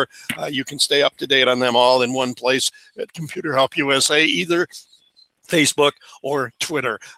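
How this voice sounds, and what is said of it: Strained, hoarse voice. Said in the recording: “I get this feeling I'm losing my voice today”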